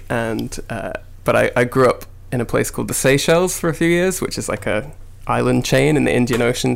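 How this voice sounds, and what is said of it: Mixed British-American accent. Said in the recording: “my mum's American accent, and now my voice is weird”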